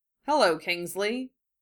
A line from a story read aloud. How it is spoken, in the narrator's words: Harry said dryly